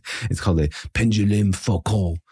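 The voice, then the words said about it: Put-on French accent. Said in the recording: “you have to say it with a French accent”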